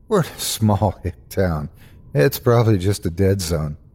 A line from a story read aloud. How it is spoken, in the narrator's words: I faked a laugh and replied